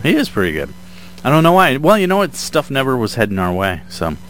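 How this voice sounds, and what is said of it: Strained, hoarse fading voice. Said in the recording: “losing my voice.”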